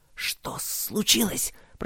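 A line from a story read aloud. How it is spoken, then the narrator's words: Hiss. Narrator (Russian): прошипел Роберт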